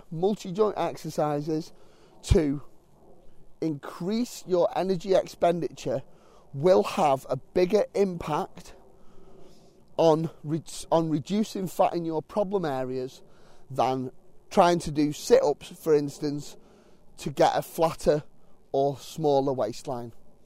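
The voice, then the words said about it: Slightly sore, strained throat. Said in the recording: “I have got a little bit of a sore throat”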